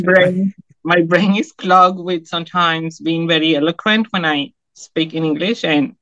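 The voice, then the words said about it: Non-native English accent. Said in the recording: “if I say 14, it sounds like 40 ... It was my accent ... it's just my accent”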